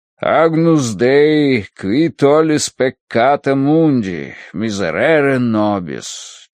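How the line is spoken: Chanting. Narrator (Russian): читал нараспев отец Рош

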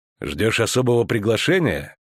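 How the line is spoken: Cold question. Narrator (Russian): холодно поинтересовался ведьмак

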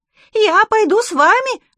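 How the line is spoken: Squeal. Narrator (Russian): завизжал он

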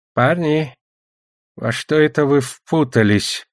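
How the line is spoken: Wheezing sorcerer. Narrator (Russian): просипел колдун

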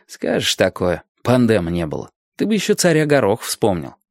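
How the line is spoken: Scoffing grunt. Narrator (Russian): Виталька хмыкнул

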